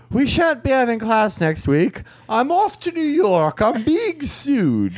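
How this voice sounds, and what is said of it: Affected English accent. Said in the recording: “he had an affected English accent. He was like from Illinois”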